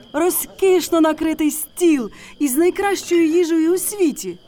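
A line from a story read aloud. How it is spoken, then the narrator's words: Donkey exclaiming. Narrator (Ukrainian): вигукнув осел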